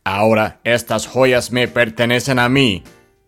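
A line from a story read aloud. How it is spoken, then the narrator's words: Growling. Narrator (Spanish): gruñía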